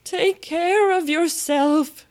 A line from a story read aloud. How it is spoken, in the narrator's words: screamed the White Queen